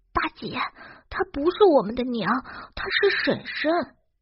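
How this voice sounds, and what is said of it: Speaking quietly, in a low voice. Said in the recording (Chinese): “小声的说道”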